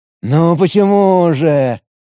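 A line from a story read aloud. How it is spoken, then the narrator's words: Drawling mage. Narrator (Russian): протянул маг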